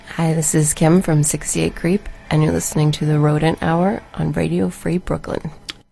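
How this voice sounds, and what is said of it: Announcer-style radio voice. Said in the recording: “that was ... radio voice.”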